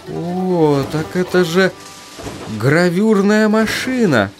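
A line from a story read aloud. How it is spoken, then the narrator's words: Uncertain. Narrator (Russian): неуверенно произнес он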